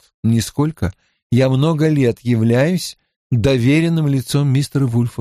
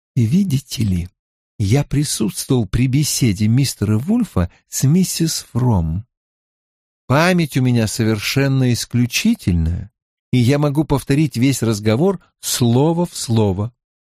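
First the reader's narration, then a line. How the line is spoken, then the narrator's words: Whispered. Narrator (Russian): шепотом продолжил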